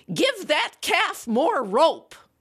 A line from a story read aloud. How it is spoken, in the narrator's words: Invariably, she barked